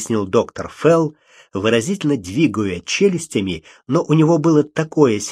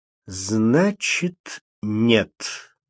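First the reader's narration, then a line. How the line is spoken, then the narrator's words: Slow. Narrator (Russian): медленно произнес доктор Фелл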